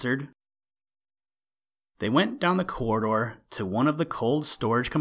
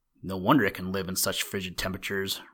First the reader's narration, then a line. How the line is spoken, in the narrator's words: Rob murmured